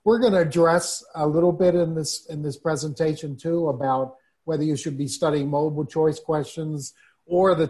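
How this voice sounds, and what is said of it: New York accent. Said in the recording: “that disgusting New York accent that we still have... it's sort of like stuck with us... we have that New York twang, that Northeast twang in our voices”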